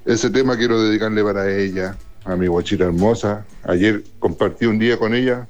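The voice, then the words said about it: Radio announcer-like voice. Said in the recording (Spanish): “tiene voz de locutor, de así como de ... Radio Universal”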